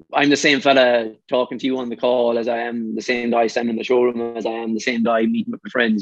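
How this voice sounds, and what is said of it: Irish Mayo accent. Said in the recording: “the Mayo accent”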